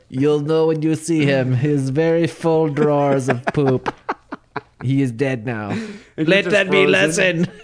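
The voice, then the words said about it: Put-on Sherpa accent. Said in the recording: “That's a good Sherpa accent you got going on there.”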